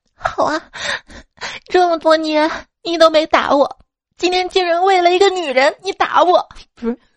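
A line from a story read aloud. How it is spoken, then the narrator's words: Crying. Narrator (Chinese): 哥哥啊，一边哭一边说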